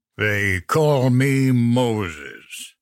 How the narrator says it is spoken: the ogre drawled

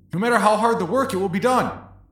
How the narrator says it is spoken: you can quickly scream

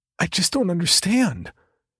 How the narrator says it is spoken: exclaims, only barely understandable

